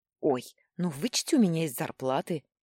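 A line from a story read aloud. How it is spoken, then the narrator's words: Snapping, offended sniffing. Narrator (Russian): огрызнулась я и обиженно засопела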